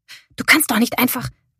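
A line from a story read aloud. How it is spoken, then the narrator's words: Hissing. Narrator (German): zischte Mary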